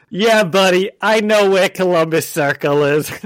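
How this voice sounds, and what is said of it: Put-on New York accent. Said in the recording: “That's my New York accent. That's the best, that's as good as I can get.”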